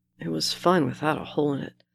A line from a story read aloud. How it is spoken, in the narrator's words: Bucky mutters